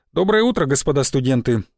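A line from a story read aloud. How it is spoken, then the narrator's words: Cheerful, brisk. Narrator (Russian): бодро начал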